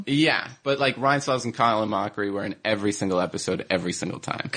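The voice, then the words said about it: New Jersey accent. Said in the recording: “I have a weird Jersey accent”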